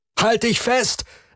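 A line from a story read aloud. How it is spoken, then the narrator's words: Calling out. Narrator (German): rief Lian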